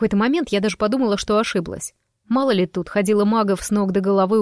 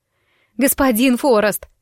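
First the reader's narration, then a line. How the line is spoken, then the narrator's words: Breathless shout. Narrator (Russian): снова крикнула я, с трудом переводя дыхание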